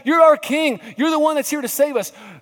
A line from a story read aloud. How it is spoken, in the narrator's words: the crowds were shouting